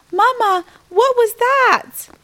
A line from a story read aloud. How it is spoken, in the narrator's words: I shrieked